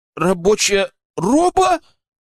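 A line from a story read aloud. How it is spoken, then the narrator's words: Exclaiming. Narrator (Russian): воскликнул Арсений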